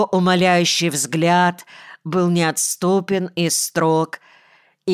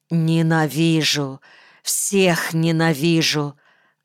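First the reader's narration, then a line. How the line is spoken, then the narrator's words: Muffled, spiteful. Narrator (Russian): глухо и злобно сказала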